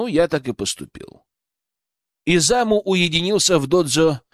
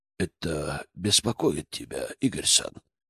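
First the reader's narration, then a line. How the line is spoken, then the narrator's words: Calm voice. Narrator (Russian): спокойным голосом спросил Изаму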